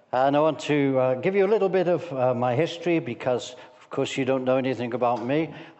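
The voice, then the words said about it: Liverpool accent. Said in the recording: “I'm from Liverpool, so I hope you can understand my accent.”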